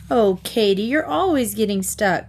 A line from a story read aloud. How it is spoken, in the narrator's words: Sue giggled